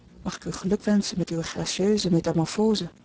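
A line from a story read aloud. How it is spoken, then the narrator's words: Whispered. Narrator (Dutch): fluister ik haar in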